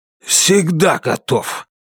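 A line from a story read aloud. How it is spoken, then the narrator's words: Hoarse voice. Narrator (Russian): сипло сказал Китон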